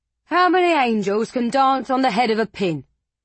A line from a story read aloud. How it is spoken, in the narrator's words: a man shouted, a sneer deforming his pockmarked face